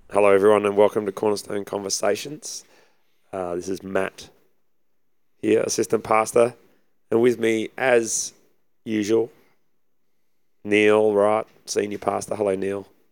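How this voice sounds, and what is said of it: Husky, hoarse voice. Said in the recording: “I like what you've done with your voice. ... I've gone the husky, trying the husky voice on for a bit ... you won't cough too much.”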